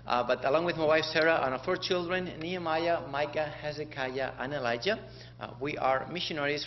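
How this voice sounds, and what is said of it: Spanish accent in English. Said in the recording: “my accent is not from here, not even from the south. We're from Spain, so wherever we go, our accent comes with me.”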